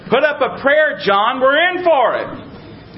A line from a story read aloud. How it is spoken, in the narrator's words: terrified, the one shouted to the other